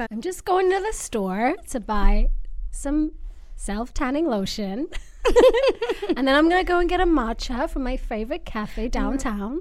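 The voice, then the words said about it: Valley Girl accent. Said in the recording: “give us your Valley Girl accent”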